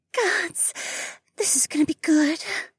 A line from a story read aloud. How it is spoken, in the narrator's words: Mariah whispered